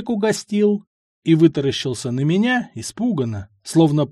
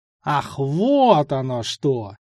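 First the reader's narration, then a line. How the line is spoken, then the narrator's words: Ominous drawl. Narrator (Russian): протянул зловеще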